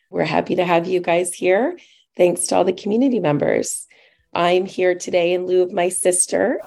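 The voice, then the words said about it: Slightly hoarse voice. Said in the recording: “a little hoarse”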